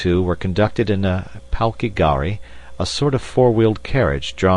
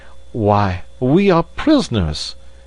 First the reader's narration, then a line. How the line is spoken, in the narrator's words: exclaimed Passepartout